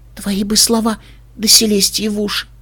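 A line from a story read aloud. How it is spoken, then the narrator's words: Whisper. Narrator (Russian): Флаттершай прошептала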